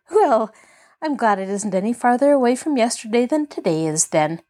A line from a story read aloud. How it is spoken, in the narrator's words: laughed Pollyanna, advancing cheerily into the room